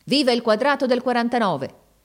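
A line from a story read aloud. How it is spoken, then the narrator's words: Shouting. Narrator (Italian): gridò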